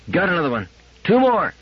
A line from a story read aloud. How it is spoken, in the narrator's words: she cried